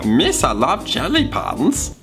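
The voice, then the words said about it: Jar Jar Binks cartoon character voice. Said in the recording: “my Jar Jar Binks impression”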